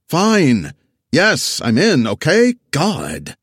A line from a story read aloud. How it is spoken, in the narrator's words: crunched ice loudly in his ear